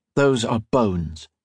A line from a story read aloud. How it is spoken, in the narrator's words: he said